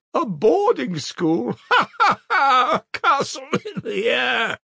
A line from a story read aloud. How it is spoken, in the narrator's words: cried Katerina Ivanovna, her laugh ending in a cough